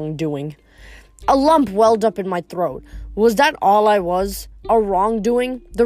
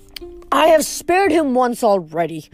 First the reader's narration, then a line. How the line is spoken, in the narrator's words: Zeus grumbled